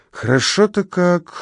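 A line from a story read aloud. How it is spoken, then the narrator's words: Sleepy. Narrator (Russian): сонно говорит Пенни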